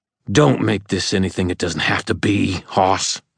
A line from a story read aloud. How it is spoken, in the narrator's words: my grandfather said, his voice hard